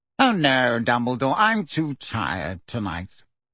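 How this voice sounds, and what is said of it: Reedy, yawning character voice. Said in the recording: “in a reedy voice, giving a long fake yawn”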